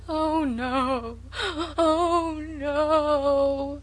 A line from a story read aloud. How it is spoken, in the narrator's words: wailed Sarah Ray lugubriously